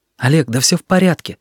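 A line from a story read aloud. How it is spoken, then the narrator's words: Hurried whisper. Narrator (Russian): торопливым шепотом сказал он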